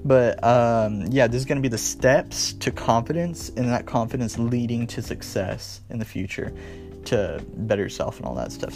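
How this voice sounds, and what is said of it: Slightly strained, worn voice. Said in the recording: “my voice is a little bit out, I was singing like all day yesterday”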